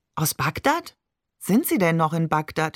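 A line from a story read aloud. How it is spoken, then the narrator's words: Plain. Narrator (German): fragte Maman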